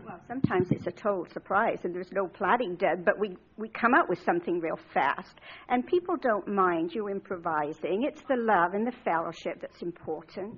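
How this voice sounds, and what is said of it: Slight British accent. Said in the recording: “Is that a British accent? I can detect that. Yes, a little bit.”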